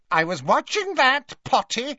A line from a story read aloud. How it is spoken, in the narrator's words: he told Harry indignantly